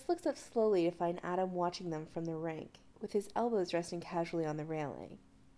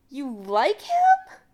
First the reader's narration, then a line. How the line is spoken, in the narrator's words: she asks way, way, way too loudly